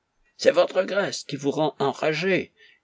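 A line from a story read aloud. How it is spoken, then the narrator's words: Shouting. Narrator (French): hurla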